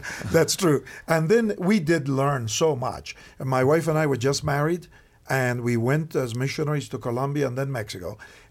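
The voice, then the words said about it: Argentine-accented English. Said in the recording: “I was born in Argentina, as I'm sure my accent tells somehow... It doesn't sound like Alabama to me.”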